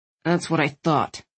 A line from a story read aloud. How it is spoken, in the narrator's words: Landon grumbled